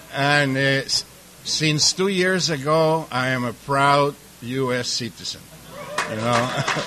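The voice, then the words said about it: Slight mixed Mexican-European accent. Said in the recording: “I have a little bit of an accent... the accent comes from, I was first generation in Mexico, from parents from Europe, and it makes me Polish, Russian, Mexican, Jew”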